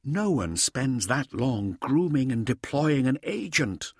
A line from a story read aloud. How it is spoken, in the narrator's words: Hauser said quietly